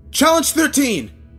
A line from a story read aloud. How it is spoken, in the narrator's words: I shouted desperately